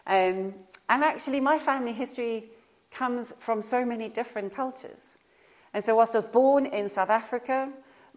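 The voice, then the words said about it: Accent not from Norfolk. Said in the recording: “as you can hear... my accent is not from Norfolk”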